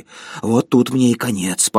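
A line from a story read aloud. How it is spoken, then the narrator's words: Wheezing. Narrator (Russian): подумал он и просипел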